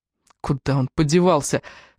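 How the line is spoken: Cracked whispered question. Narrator (Russian): спросил Раф над треснутым шепотом

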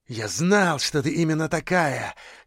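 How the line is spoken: Fervent whisper in ear. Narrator (Russian): горячо шептал он ей на ухо

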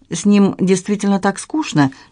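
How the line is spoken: Innocent question. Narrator (Russian): невинным тоном спросила я

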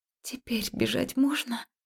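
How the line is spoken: Soft breathy whisper. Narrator (Russian): тихо выдохнула я

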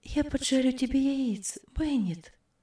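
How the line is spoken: Tender. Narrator (Russian): сказала она ласково

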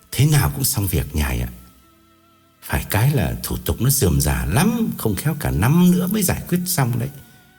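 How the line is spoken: Whisper. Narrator (Vietnamese): Gã thì thầm bảo

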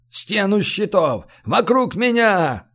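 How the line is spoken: Yelled. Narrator (Russian): заорал сотник

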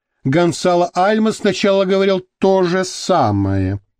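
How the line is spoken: Grumbling. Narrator (Russian): проворчала Мария Тереза

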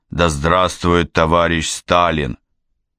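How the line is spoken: Solemn, resonant voice. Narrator (Russian): Талалян торжественно произносит звучным голосом

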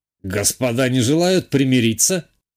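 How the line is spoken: Snide, sarcastic. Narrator (Russian): ехидно уточнил граф Найденов

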